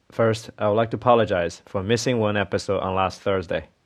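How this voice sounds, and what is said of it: Slightly rusty, hoarse voice. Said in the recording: “under the weather ... my voice is a little bit rusty ... the coughing is gone”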